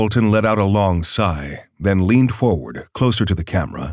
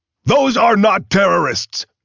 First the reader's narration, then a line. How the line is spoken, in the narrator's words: His face reddened as he yelled, as if he were on the verge of experiencing a cardiac event